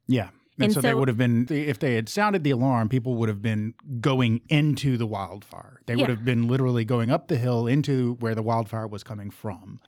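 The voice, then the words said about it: Thick Southern American accent. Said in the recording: “just exactly how thick my Southern accent is when I said fire.”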